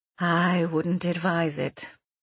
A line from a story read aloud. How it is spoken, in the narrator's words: Hugild replied with a sigh